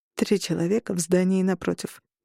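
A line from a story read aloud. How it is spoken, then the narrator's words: Quiet. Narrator (Russian): тихо сказал Берн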